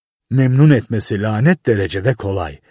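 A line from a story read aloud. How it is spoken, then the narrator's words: Muttered. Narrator (Turkish): diye mırıldandı Buckner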